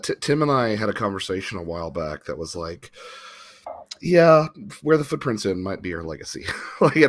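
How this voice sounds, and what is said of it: Stuffy, sick-sounding voice. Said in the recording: “the way my voice sounds, everyone. I am at the downhill slope of cold.”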